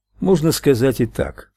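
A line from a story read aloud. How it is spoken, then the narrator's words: Dry remark. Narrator (Russian): сухо заметил Майк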